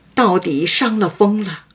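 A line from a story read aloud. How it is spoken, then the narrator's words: Sighing. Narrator (Chinese): 宝玉叹道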